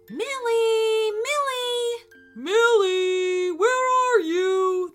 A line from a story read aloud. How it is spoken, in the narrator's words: they both called out